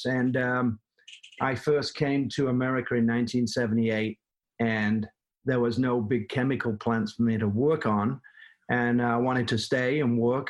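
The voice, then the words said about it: Slight Manchester English accent. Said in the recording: “I have a little bit of an accent. I'm from Manchester, England.”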